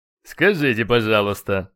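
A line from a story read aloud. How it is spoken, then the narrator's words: Snorting. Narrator (Russian): фыркнул черный наездник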